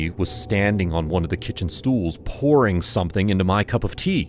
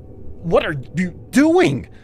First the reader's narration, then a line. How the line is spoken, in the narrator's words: I blurted, my eyes going wide